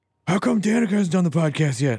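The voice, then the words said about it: Imitates another person's voice. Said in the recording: “That was a pretty good Will impression.”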